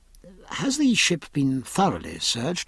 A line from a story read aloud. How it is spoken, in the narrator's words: said Jack in a most uneasy tone